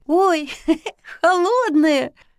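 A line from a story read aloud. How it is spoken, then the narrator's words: Laughing. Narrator (Russian): рассмеялась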